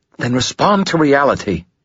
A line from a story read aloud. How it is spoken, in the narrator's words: she snapped